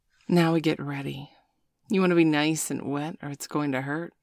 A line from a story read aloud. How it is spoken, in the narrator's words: Sabrina grinned